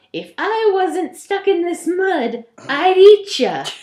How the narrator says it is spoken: The ghoul called out

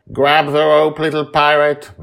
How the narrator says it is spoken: says loudly enough for us to hear

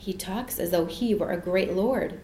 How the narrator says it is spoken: Jane said in a whisper

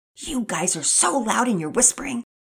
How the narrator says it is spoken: Penelope hissed

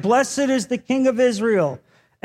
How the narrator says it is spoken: shouting

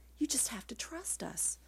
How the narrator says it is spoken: He murmured into the earrings tangled in my hair

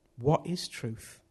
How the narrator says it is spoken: Pilate asked

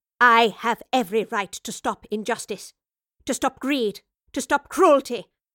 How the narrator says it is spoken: the professor spat, her own anger churning inside her

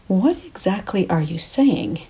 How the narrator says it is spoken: I asked

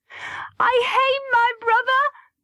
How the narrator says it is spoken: I shouted

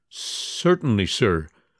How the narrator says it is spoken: stammered Monsieur Lantin

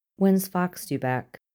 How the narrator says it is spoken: she asks evenly, her voice a little too devoid of tone to be natural

